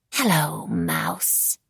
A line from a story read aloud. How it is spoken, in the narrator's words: she whispered